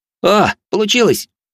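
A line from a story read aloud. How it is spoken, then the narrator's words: Joyful young man's yell. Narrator (Russian): радостно завопил парень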